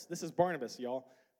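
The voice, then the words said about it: Put-on Southern accent. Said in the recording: “I don't know where that southern accent came from right there.”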